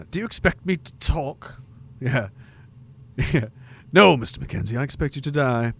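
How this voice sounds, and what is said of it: Goldfinger accent impression. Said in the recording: “Goldfinger accent.”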